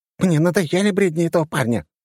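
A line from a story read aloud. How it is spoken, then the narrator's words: Displeased snort. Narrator (Russian): фыркнула недовольная Анжела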